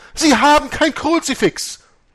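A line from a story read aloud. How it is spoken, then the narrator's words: Horrified woman's scream. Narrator (German): schrie Margaretes Tante entsetzt auf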